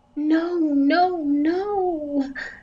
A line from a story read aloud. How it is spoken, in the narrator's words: Kendall moaned